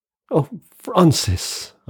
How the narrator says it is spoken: I cried

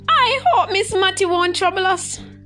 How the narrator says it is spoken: Gussie shouted as they ran

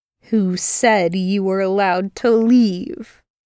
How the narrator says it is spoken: He said as menacingly as he could

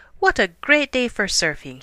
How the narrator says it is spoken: he cried

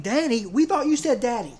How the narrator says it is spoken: with one voice and with tears in their eyes, the children exclaimed

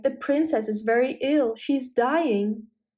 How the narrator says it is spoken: he cried

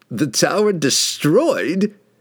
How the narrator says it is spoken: Kessel mocked

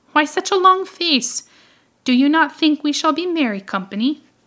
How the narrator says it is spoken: laughed one

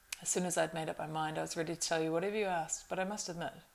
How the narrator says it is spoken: he added with a laugh

